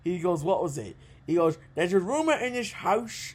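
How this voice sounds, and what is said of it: Put-on Irish accent. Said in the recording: “I'm going to stop the Irish accent before I get shot.”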